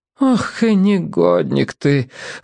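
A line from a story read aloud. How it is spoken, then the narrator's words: Sigh. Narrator (Russian): вздохнула Венера Мироновна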